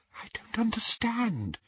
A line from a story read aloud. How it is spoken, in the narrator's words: she whispered